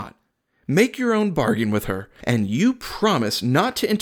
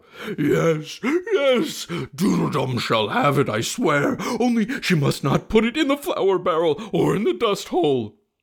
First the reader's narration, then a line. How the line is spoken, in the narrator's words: he bawled out